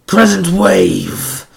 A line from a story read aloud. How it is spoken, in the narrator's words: Zenarku growled